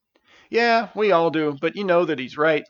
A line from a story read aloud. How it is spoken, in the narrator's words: laughed Stavius